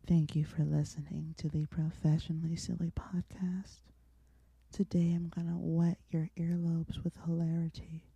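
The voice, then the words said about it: Sultry sexy phone voice. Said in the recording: “I'm gonna do my sexy phone voice.”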